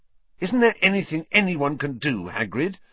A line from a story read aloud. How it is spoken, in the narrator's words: Harry asked fiercely